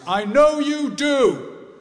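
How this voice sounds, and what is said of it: Loud voice. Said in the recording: “in a loud voice,”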